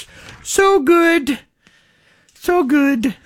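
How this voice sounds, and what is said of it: Sudden high falsetto voice. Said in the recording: “all of a sudden go falsetto”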